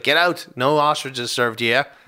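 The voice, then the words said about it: Put-on Australian accent. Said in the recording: “a good accent there ... That's an Australian.”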